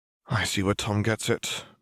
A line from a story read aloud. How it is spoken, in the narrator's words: muttered Hermione